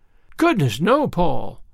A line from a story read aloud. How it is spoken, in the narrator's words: exclaimed Anne in amazement